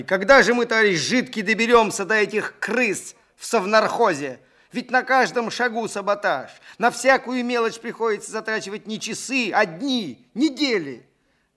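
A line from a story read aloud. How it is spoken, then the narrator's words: Indignant shouting. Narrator (Russian): Глеб кричал в негодовании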